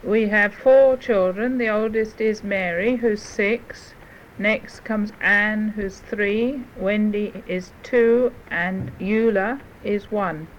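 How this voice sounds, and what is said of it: English accent. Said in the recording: “I noticed ... accent right off because she sounded so like a friend of mine in England. And ... does come from England”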